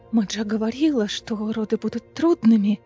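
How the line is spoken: Breathless exhale. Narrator (Russian): выдохнула Фейра

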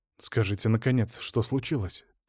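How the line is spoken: Quiet request. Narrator (Russian): тихо попросил Алексей

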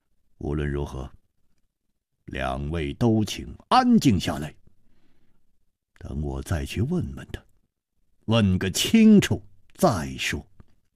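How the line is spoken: Deep, measured voice. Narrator (Chinese): 楚留香默然半晌，沉声说

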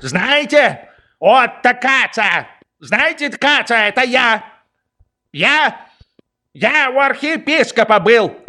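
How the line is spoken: Yelling behind door. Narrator (Russian): Орал он за дверью

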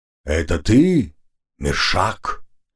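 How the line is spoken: Calm, even question. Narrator (Russian): ровным голосом спросил он

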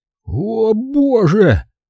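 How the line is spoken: Moan. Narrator (Russian): простонал

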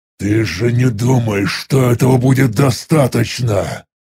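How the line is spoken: Angry growl. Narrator (Russian): Зло прорычал я

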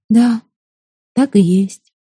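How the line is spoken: Sad. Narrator (Russian): печально кивнула Ута

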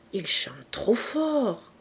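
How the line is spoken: Whispered in ear. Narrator (French): murmura Octave à l'oreille de Madame Edouin

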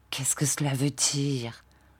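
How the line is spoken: Murmured. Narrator (French): murmura Marthe

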